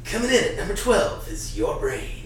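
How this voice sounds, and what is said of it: Radio countdown announcer voice. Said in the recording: “Casey Kasem zombie ... with the microphone and, like, the radio voice and everything ... I couldn't even do an impression of you that did you justice”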